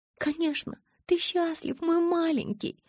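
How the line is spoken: Cooing. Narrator (Russian): заворковала она

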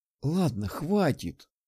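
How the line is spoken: Soothing sigh. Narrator (Russian): вздохнула Татьяна, пытаясь разрядить обстановку

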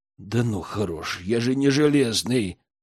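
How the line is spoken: Groaning. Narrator (Russian): простонал Герман

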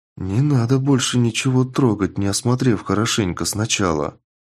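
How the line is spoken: Dejected plea. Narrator (Russian): упавшим голосом попросила Рада найденыша

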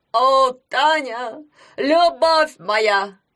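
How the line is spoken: Shouting. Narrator (Russian): кричал он

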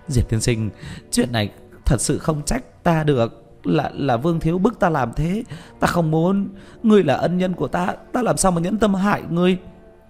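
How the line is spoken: Trembling sobbing plea. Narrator (Vietnamese): Lý Hoàng Giang ra mặt run rẩy, nức nở

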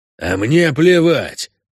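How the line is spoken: Angry objection. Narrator (Russian): зло возражал ему один из пассажиров князя

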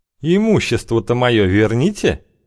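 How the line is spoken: Snide. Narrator (Russian): сказал Колокольцев, ехидно скались

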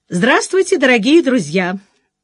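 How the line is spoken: Cheerful host voice. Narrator (Russian): бодрым голосом заговорил ведущий

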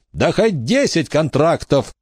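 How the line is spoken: Shout. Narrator (Russian): закричала Рамона

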